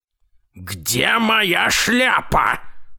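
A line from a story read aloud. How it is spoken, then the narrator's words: Old man roaring. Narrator (Russian): взревел дедушка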